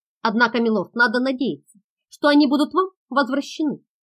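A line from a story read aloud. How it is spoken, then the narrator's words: Plain. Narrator (Russian): сказал лейтенант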